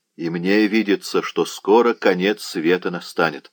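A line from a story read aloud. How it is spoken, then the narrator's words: Plain. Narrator (Russian): сказал Кушель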